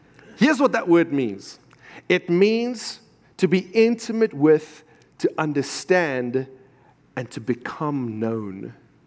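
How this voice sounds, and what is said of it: African accent. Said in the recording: “I'm working on my American accent, but it takes time for the Africa to get”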